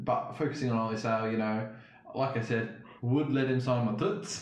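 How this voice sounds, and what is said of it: Put-on accent. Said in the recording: “Nice use of the accent there. Very impressive.”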